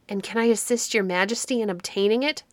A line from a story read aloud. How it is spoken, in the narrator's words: cried Perseus eagerly